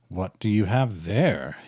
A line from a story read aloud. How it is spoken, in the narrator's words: hisses Schindler